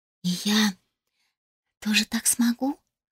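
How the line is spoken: Incredulous whisper. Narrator (Russian): недоверчиво прошептала Мелоди

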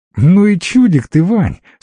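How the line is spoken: Laughing. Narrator (Russian): смеялась жена

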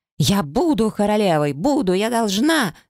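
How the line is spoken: Shrieking. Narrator (Russian): завизжала она

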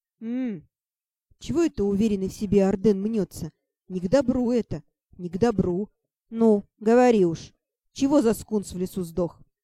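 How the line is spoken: Wistful sighing voice. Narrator (Russian): Лирически вздохнула я

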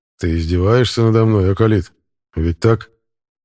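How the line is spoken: Calm, slightly smiling. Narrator (Russian): Спросил он абсолютно спокойным голосом и, кажется, слегка улыбаясь

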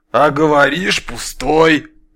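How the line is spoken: Bear's gruff snort. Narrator (Russian): хмыкнул медведь

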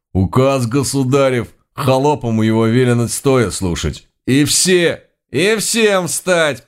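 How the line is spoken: Menacing proclamation. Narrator (Russian): поддержал его второй, грозно пуча свои глаза

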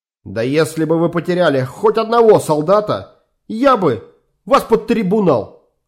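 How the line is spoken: Shout. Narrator (Russian): крикнул майор Фрике

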